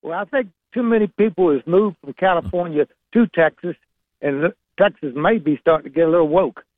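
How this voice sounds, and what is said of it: Virginia Southern accent. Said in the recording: “I love the Virginia Southern accent. It really is one of the classiest of our Southern accents, and you've got a great one.”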